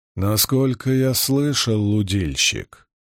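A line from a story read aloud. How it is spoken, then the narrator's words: Calm reply. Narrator (Russian): спокойно отвечал Илояс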